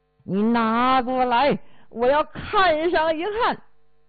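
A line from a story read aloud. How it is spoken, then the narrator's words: Crazed roar. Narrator (Chinese): 陈世美呀，现在真是丧心病狂了，大吼道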